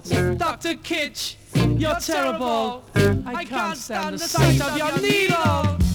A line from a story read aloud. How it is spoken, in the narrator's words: start to shout